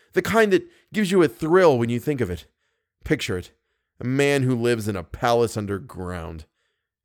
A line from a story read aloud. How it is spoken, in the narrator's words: said Raoul bitterly